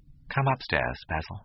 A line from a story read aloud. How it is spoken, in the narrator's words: he said quietly